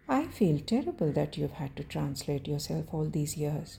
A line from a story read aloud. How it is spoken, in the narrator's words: Shane says